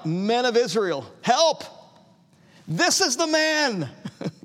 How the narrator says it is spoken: yelling at the top of their lungs, crying out

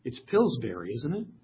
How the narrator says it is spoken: he whispered

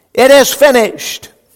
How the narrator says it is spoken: even though he was in utter physical weakness, shouted with a loud voice

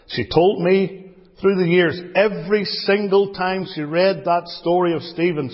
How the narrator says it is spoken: she cried

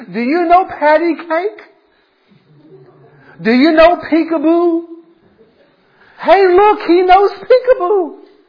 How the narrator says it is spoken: the old man began shouting across the room

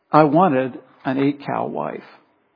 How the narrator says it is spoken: he finished softly

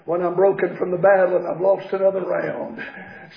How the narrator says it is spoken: Satan whispers

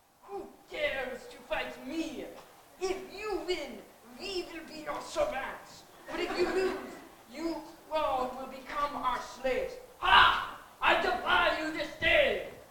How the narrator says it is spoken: a 9-foot Philistine giant yelled at the Israelite army

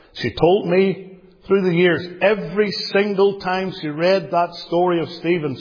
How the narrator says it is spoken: she cried

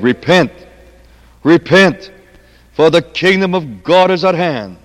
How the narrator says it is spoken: The apostle John, when he came out of the wilderness, he cried day by day

